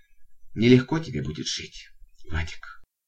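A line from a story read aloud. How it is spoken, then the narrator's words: Sighing, gentle. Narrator (Russian): вздохнула и добавила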